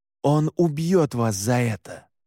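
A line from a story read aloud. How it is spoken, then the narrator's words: Hissed. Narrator (Russian): прошипел я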